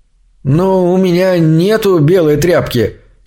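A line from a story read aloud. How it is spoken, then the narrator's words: Slightly confused. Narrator (Russian): слегка растерянно ответил парень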